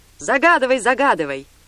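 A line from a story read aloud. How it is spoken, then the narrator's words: Excited group shouting. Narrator (Russian): 30 юношам понравилось такое предложение, и они закричали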